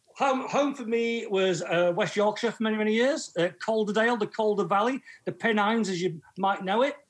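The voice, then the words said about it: Northern English accent. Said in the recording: “your accent doesn't lend itself to say, I don't think about the Italian Dolomites or the Pyrenees ... My accent lends itself to the true north, mate, Northern England.”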